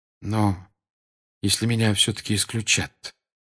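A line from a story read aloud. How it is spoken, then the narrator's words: Quiet question. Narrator (Russian): тихо спросил Гарри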